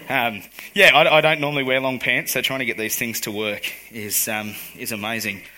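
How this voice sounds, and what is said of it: Worn-out, strained voice. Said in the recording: “As you can hear, my voice isn't quite 100%. That's what happens at men's camp. We spend a lot of time talking.”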